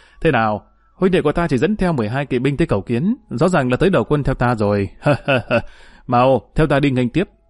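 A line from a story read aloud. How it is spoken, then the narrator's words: Hearty laughter. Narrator (Vietnamese): Trương Mậu vừa nghe thấy tin này liền bật cười ha ha nói với mọi người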